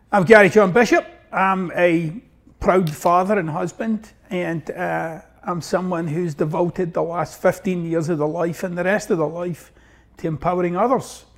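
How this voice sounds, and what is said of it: Glaswegian Scottish accent. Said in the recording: “I got this wonky accent, so I'm originally from Glasgow, Scotland, and actually from the east end of Glasgow”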